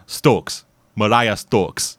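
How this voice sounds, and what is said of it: Poor attempt at Jamaican accent. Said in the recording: “I can't do a Jamaican accent, as it turns out”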